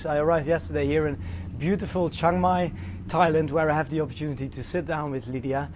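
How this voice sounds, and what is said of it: Impaired, unwell-sounding voice. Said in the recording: “sorry for my voice”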